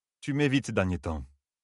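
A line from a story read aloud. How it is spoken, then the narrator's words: Deep icy female voice. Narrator (French): dit Reneil d'une voix très grave pour une femme, et plus glaciale que la neige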